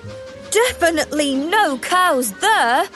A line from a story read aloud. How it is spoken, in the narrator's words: laughed Thomas